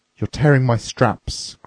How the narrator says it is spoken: cried the officer

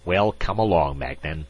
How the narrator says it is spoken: Ambassador Krodfaller's voice snapped

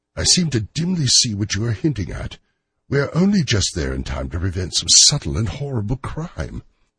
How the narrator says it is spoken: cried

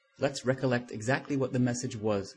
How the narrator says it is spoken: said Coffin

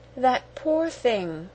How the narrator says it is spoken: cried Sarah softly

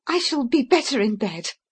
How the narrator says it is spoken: She said wildly

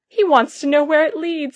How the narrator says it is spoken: he shouted to some men on the hillside

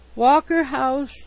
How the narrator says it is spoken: he moaned

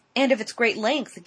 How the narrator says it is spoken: gasped Mrs

